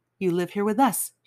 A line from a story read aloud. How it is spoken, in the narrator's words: she says